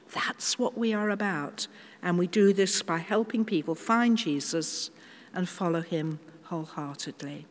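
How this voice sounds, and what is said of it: British accent. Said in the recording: “people can usually spot by my accent, oh, she's very British, isn't she?”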